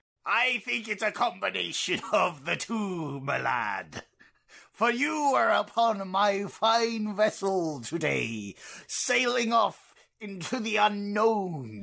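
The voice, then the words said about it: Pirate-like sailor accent. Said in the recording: “my accent sounds very much like a pirate”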